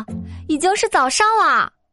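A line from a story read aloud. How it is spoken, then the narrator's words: Shouted. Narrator (Chinese): 我喊道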